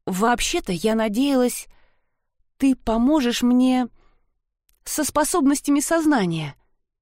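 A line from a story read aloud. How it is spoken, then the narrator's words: Timid. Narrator (Russian): робко начала она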